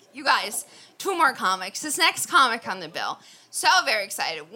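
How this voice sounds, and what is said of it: Loud yelling into the mic. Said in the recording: “I'm yelling. ... Too close to the mic.”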